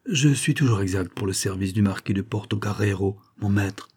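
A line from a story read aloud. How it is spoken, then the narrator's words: Low-voiced reply. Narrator (French): répliqua à voix basse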